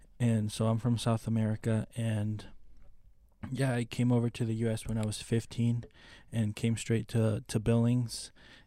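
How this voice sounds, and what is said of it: Spanish accent. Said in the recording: “His Spanish accent is amazing.”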